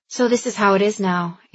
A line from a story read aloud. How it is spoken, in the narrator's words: Andy said, surprised to find that her voice was strong and steady